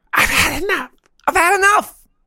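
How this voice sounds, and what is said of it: High-pitched voice. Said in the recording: “in a high voice.”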